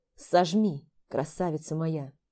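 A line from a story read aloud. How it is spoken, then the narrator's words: Moaning. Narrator (Russian): Простонал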